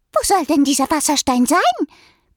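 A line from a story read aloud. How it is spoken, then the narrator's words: Sparrow's squeak. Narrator (German): piepste ein Spatz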